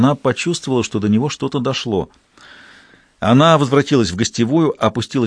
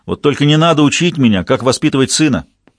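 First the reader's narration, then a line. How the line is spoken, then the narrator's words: Shouted reply. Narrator (Russian): Роберт крикнул в ответ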